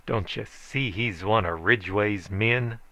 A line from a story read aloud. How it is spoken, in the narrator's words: snarled